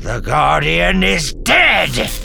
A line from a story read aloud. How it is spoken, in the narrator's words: the old man snapped